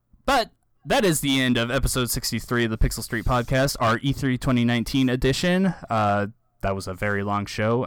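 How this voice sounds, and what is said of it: Tired, worn-out voice. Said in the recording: “as you can tell from my voice, I am wiped out.”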